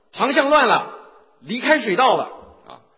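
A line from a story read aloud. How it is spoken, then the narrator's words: Tense, anxious shout. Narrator (Chinese): 领航员呢在很紧张很着急的大喊的说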